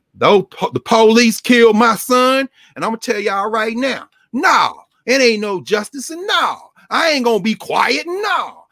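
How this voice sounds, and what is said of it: Imitated voice with Southern twang. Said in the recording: “it's that Southern twang. You know, them Mississippi Negroes and Texas Negroes”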